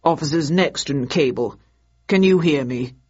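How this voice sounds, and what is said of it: Deep male character voice. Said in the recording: “said a deep voice over the wireless.”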